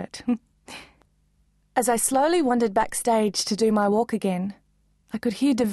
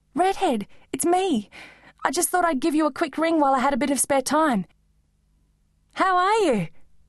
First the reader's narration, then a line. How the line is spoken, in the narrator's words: asked excitedly